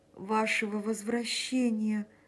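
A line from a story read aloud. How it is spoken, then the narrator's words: Moaning, voice ringing then breaking. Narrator (Russian): простонал Эмиль, и голос его зазвенел и оборвался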